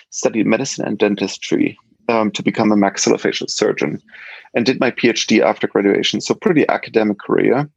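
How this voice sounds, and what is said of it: German accent. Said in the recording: “as you can probably hear from my accent, I'm from Germany originally”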